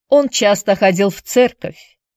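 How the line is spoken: Hesitant mutter, young man. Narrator (Russian): нерешительно пробормотал юноша

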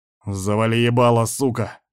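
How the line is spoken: Barked harshly. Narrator (Russian): рявкнул один из ястребов

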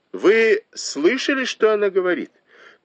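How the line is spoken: Shouted to servants. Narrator (Russian): крикнула Танчунь служанкам

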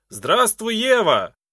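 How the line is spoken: Shouting. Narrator (Russian): крикнул

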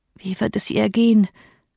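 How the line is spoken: Groan. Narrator (German): stöhnte

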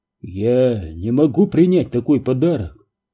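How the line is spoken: Confused mumble. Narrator (Russian): растерянно пробормотал Перри

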